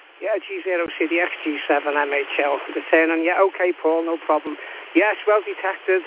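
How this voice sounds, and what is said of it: Merseyside Liverpool accent. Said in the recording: “you sound like you're from Liverpool... Merseyside accent”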